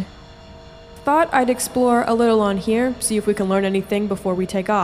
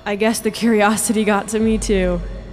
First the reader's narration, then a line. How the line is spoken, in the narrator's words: he said with a laugh